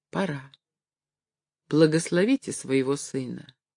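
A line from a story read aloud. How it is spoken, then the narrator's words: Timid. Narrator (Russian): робко сказала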